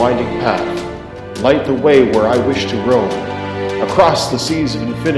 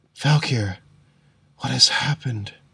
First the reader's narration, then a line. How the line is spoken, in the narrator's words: She whispered